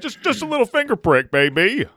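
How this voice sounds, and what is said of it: Silly old-timer radio voice. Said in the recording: “I'm not sure why I have this voice ... Old timer radio ... I'm trying to feel big boy confident ... my silly voice”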